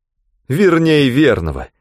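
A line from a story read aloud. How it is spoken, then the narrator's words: Exclaiming. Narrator (Russian): воскликнул он, пуская в ход жаргон рассыльных из Грин-Дэвидсон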